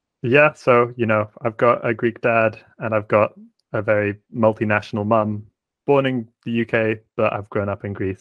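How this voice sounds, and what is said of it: British (UK) accent. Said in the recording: “the UK accent”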